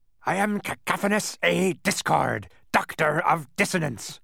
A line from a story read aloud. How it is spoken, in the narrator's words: roared the man